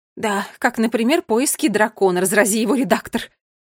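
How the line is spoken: Grumbling queen. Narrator (Russian): проворчала королева Кникс

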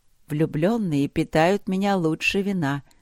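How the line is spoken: Soft. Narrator (Russian): сказала она мягко

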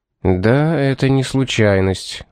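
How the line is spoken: Grim remark. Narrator (Russian): мрачно заметил Пит

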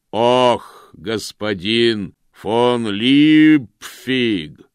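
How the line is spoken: Booming from the stable yard. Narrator (Russian): прогремело с конюшенного двора

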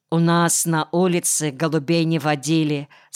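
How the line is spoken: Plain. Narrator (Russian): сказал Кирка

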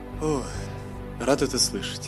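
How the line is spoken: Relieved exhale. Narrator (Russian): выдохнул Антар

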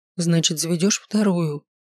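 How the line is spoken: Hoarse grumble. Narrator (Russian): Хрипло буркнула

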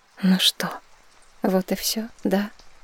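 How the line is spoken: Resigned sighing thought. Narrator (Russian): обреченно подумала я, вздохнув

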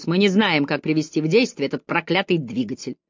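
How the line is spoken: Sharp after hesitation. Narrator (Russian): После нескольких секунд замешательства он резко произнес

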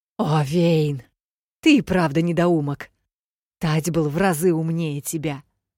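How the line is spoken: Growling. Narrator (Russian): прорычала Элигия

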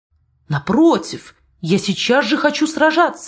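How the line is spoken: Exclamation. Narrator (Russian): воскликнул наш герой

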